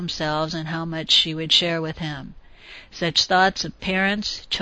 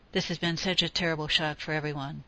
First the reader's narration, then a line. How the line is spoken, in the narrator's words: Chucky murmured